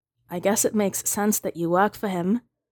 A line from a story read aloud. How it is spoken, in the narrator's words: the boy says sadly